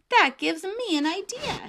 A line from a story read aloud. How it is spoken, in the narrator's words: Daniel exclaimed